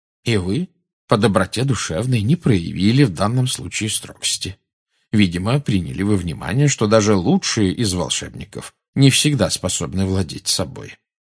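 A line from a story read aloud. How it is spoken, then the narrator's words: Calm. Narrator (Russian): спокойно проговорил Дамблдор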